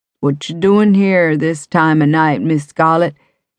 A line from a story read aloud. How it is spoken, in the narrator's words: asked, exaggerating his deep drawl